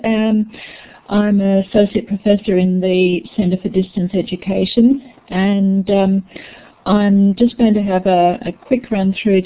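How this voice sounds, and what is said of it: Noticeable accent. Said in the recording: “I hope you can all understand my accent.”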